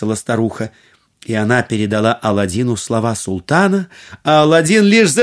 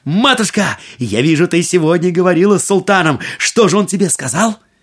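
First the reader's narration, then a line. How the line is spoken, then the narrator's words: Exclaiming. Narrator (Russian): Аладдин воскликнул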